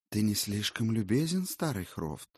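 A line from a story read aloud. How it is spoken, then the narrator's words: Many voices whispering together. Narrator (Russian): Казалось, разом заговорили, или, вернее сказать, зашептали все до единого разноцветные венчики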